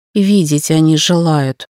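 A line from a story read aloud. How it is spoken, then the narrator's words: Grumbling. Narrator (Russian): бурчала я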